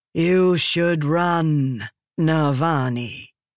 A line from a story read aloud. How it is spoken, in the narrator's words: Raboniel said to a calm rhythm, her voice echoing in the room